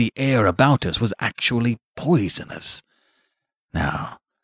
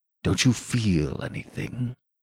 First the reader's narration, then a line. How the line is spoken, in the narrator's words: he said to me very gravely